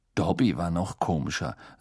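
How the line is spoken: Dry. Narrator (German): sagte Harry trocken

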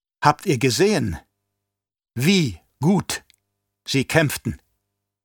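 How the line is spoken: Plain question. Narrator (German): fragte der Fremen

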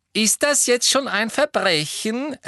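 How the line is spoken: Loud reply. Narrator (German): erwiderte Fred laut

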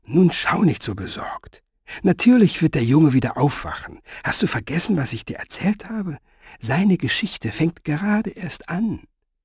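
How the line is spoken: Whisper. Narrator (German): Finoglio flüsterte

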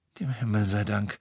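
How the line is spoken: Whisper. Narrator (German): flüsterte Ginny

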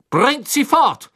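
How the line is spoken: Thundering, spluttering shout. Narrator (German): donnerte Crouch den Dementoren entgegen und Speicheltropfen flogen ihm aus dem Mund

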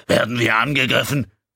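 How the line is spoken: Loud shouting over noise. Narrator (German): Kutal musste brüllen, um sich Gehör zu verschaffen

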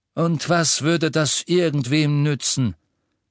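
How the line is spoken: Cold. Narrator (German): sagte Dumbledore kalt

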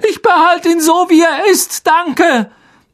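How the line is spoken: Shout. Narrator (German): schrie Harry

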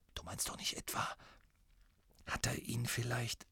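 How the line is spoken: Whispered. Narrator (German): flüsterte Ron

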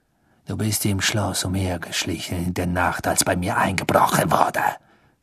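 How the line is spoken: Hissing. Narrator (German): zischte Snape

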